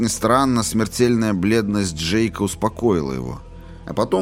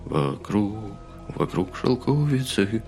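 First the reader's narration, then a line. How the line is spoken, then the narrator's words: Whispered singing. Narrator (Russian): шепотом запел Келлоган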